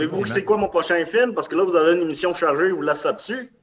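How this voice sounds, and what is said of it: Usual voice. Nothing is said of it.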